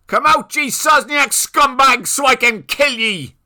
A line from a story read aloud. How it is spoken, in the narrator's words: yelled a voice